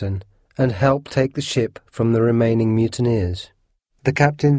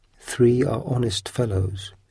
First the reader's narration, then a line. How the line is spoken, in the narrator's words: whispered to me